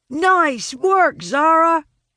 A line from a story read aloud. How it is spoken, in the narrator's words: Talon shouts